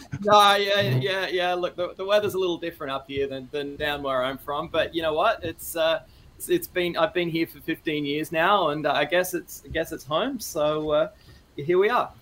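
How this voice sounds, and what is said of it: Australian accent. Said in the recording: “I just assumed you would have a Canadian accent. Are you Australian?”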